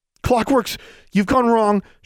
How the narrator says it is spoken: gasped

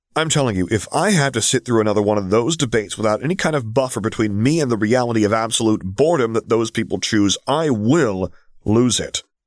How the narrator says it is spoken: Quinn argued hotly

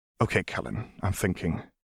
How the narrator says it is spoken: replied softly

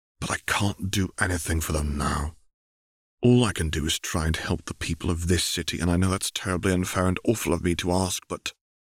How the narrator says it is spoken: said quietly

